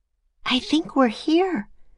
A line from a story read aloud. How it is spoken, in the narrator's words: whispered Annie